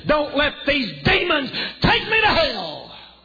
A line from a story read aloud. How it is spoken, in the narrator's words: avowed agnostics and atheists who, when they're dying, screaming